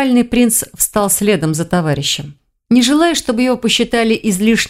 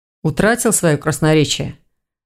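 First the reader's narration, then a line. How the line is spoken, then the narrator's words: Gloomy question. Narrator (Russian): Мрачно осведомился Рейн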